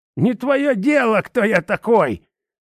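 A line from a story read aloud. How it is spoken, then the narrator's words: Old man's womanish shriek. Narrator (Russian): как-то по бабье взвизгнул старик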